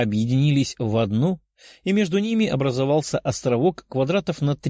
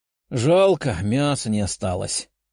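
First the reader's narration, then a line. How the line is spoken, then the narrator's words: Sorrowful sigh. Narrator (Russian): горестно вздохнула Даша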